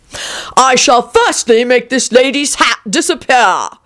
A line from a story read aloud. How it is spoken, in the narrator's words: cried the king